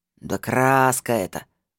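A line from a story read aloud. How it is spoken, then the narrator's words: Snorting. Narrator (Russian): фыркнул лохматый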